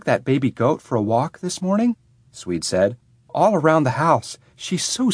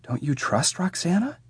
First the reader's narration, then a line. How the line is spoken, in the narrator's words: Swede whispered